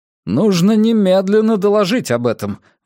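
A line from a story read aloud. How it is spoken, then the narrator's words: Exclaiming. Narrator (Russian): воскликнул Виднал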